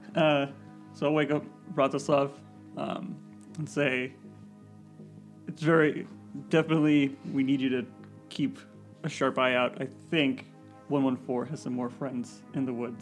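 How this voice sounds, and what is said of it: Put-on character accent. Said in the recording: “He sounds like the cannibal, Cordova ... I'm trying to do a different type of accent.”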